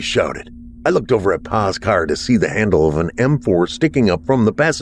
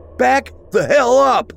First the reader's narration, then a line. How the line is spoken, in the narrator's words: I shouted